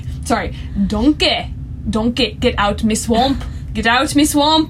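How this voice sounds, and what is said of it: Shrek impression, Scottish accent. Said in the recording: “channel my inner Shrek when I want to do Scottish accent”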